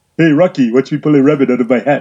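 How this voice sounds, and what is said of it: Bullwinkle cartoon moose voice impression. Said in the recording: “Bullwinkle do his ... Not a bad impression.”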